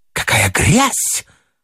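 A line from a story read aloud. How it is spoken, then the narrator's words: Disgusted exclamation. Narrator (Russian): воскликнула она с отвращением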